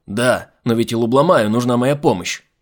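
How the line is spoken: Yelled. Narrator (Russian): заорал Айзек

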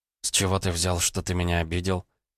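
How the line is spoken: Quiet. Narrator (Russian): тихо ответила она

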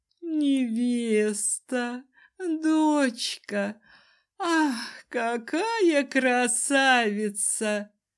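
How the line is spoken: Breathless exclamation. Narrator (Russian): Выдохнула огненная дама

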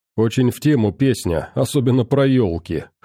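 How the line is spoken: Snort. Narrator (Russian): хмыкнул я

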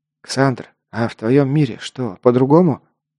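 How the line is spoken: Quiet question. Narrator (Russian): негромко спросил идущий рядом Лок

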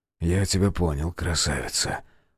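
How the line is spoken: Whisper. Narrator (Russian): шепнул он ей

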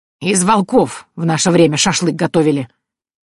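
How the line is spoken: Bold bark, old woman. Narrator (Russian): храбро рявкнула бабка

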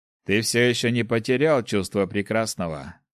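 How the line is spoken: Snorting. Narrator (Russian): хмыкнул Снег

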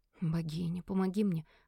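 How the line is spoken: Whisper. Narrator (Russian): прошептала

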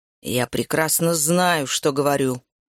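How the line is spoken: Growl. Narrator (Russian): прорычал Макс

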